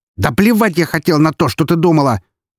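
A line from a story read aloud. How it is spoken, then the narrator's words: Shouting father. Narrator (Russian): выкрикнул ее отец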